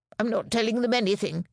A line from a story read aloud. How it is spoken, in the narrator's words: he snapped